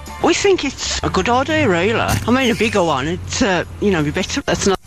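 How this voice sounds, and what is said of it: Mock Birmingham accent imitation. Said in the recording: “How can you say I sound like that? ... Are we having a Brummy moment? ... It's a funny accent.”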